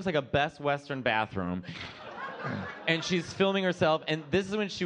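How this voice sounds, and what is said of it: Usual voice. Nothing is said of it.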